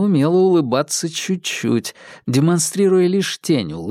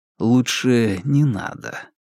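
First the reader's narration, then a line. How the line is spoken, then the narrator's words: Gentle request. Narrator (Russian): мягко попросил Вербин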